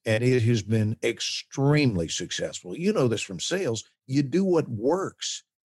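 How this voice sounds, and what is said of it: Authoritative Southern accent, whistling S's. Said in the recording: “I sounded just like this in the room with that little soft whistle on my S's, just that little bitty thing ... a Southern accent ... very authoritative when I do that voice ... when I lean in and talk like this”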